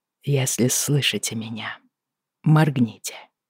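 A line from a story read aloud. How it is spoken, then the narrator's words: Quiet. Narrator (Russian): негромко сказал он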